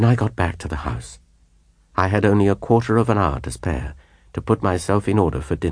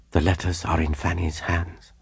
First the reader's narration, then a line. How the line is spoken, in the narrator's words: I whispered to her